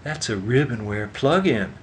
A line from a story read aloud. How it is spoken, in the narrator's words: exclaimed Pressburg